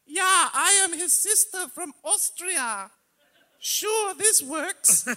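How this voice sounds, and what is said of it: Fake Austrian accent. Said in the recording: “I'm going to do a fake accent out of nowhere and try to maintain it the entire time ... That's clearly a fake accent”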